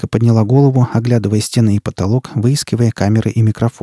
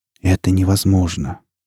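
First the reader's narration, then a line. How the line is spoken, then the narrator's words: Whisper. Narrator (Russian): прошептал Борг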